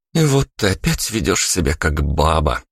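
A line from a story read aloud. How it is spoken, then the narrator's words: Mock sigh. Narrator (Russian): притворно вздохнула Вика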